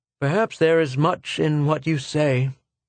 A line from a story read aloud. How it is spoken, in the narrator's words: said Schecht sadly